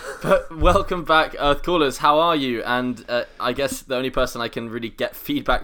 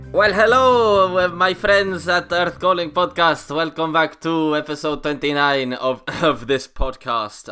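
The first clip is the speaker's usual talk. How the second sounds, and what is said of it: Put-on Spanish accent. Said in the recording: “I will cut my Spanish accent off there so as not to torture you.”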